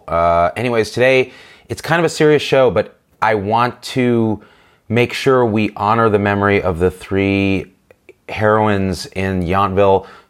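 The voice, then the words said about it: Rough, sick-sounding voice. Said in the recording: “I apologize for my voice. I'm getting through a cold”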